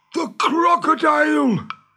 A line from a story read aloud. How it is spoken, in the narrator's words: gasped Hook